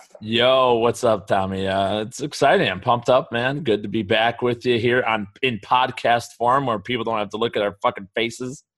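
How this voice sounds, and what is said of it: Slightly raspy voice. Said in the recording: “You sound a little raspy.”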